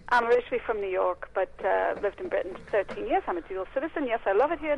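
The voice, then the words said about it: Mixed American-English accent. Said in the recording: “it isn't a Bedfordshire accent ... I'd always thought American, actually ... To the Brits, it's American. To the Americans, I sound really English.”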